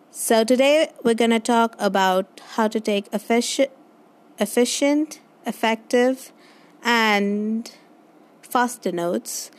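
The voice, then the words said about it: Accent with picked-up American tinge. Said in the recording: “you'll also notice a change in my accent because I kind of have picked up an accent while watching a lot of American series”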